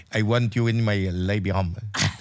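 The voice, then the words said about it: Put-on French accent. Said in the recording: “What accent is that? ... French. ... It's kind of a French thing. ... she was a French maid.”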